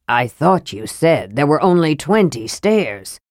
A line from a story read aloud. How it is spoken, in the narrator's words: Flint growled